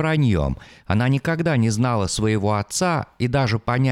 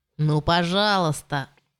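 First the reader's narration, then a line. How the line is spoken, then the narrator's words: Moaning plea. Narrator (Russian): снова простонала Эви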